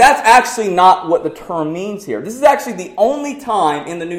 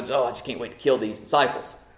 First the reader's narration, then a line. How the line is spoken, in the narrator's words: Saul was kind of walking around grumbling